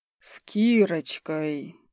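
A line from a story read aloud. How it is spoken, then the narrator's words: Thoughtful drawl. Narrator (Russian): задумчиво протянул Иван Петрович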